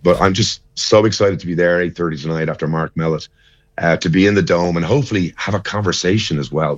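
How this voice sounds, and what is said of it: Slightly crackly, worn voice. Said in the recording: “my voice is a little bit crackly”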